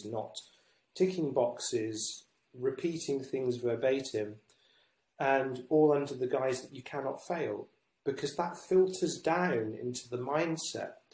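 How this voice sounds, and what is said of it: British English accent. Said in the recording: “if you couldn't tell by my accent, I'm in the UK.”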